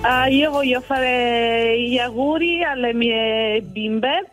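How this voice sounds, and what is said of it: Regional Italian accent, not Venetian. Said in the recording (Italian): “l'accento non era proprio di Bassano del Grappa”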